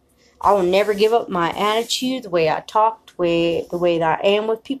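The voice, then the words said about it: Southern country accent. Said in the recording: “I know I sound country. ... the country southern loving in me”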